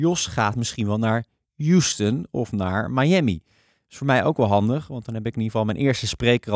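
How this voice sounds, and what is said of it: Usual voice. Nothing is said of it.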